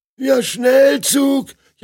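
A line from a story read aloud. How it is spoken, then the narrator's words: Newlywed man whining. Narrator (German): jammert der Neuvermählte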